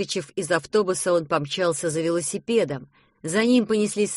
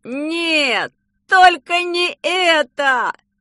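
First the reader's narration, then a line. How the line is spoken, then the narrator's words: Shouting. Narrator (Russian): закричал Петя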